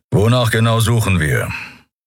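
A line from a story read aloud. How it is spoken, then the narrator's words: Growling. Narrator (German): hörte Endriel Keru hinter sich knurren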